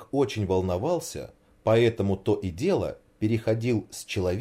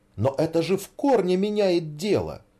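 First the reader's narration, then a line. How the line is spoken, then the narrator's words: Exclamation. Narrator (Russian): воскликнула Снегурочка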